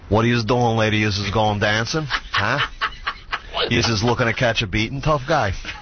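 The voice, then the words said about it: New York accent. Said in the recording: “I worked very hard to lose my New York accent, but would you like to hear it?”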